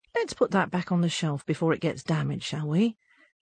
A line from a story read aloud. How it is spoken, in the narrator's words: A bookshop owner gently says